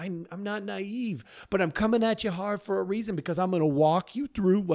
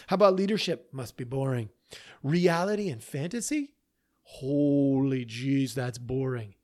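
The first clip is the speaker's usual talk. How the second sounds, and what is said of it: Sarcastic delivery. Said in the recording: “I'm being sarcastic.”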